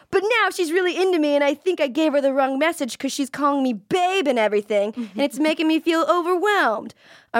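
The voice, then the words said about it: Put-on accent while reading. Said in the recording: “I'm going to drop the accent now.”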